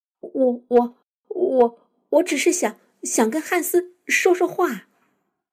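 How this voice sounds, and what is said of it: Trembling, stammering voice. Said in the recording (Chinese): “昆汀用颤抖的声音说”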